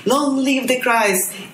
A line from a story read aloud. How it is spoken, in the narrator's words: everyone was shouting